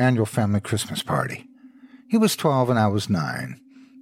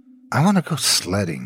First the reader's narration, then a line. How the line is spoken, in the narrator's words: I muttered